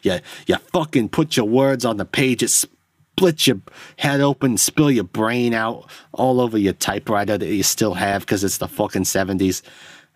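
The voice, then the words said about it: Put-on New York accent. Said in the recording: “I don't know why I'm in New York all of a sudden ... I don't know why I'm doing that accent”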